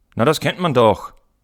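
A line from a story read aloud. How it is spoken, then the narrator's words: Boy calling out. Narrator (German): rief der Junge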